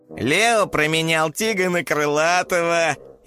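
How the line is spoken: Snide teasing. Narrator (Russian): ехидно подначил Спайк

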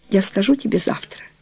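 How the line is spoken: Quiet. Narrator (Russian): тихо сказала она

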